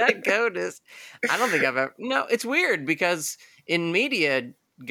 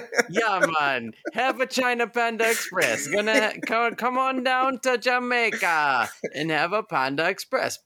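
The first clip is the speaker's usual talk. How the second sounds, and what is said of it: Put-on Jamaican accent. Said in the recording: “I can only say goat in the Jamaican accent.”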